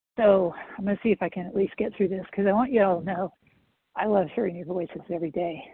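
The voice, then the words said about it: Very hoarse voice. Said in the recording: “this chemo drug that makes my voice very hoarse”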